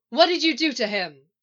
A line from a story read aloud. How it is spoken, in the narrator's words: She shouts